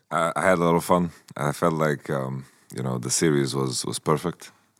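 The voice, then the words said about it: Strained, worn-out voice. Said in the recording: “I got to do some booth action as well. That's why my voice is a bit effed up.”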